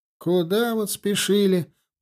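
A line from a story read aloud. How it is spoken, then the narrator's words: Grumbling. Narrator (Russian): проворчал Малаев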